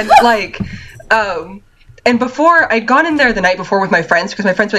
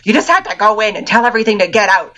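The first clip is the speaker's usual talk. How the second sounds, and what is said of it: Goblin-like character voice. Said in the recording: “doing that voice, ... that's exactly what that goblin sounds like.”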